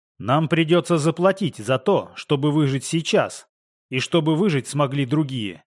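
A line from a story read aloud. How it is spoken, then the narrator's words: Plain. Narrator (Russian): сказал я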